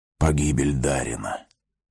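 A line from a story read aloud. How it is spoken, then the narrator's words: Whispered. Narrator (Russian): прошептал он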